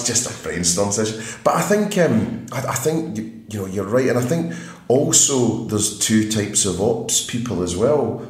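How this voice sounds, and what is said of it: Scottish accent. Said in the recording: “The way you say it sounds sexy. It's a Scottish accent.”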